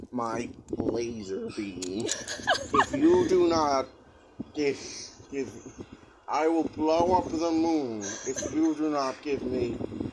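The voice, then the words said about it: Doctor Evil impression. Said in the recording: “a pretty good Doctor Evil impression”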